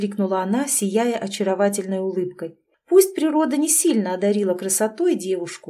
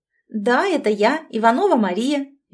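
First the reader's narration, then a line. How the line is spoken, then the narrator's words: Cheerful. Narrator (Russian): весело выдала она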